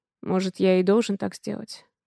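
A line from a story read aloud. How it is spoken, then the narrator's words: Gloomy. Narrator (Russian): мрачно говорит Дима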